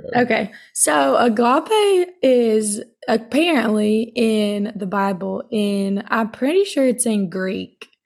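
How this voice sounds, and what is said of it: Raspy, hoarse smoker-like voice. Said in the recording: “you sound like a dang. ... 50-year-old smoker or something. ... sorry for my voice”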